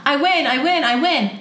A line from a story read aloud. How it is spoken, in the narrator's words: yelled from distance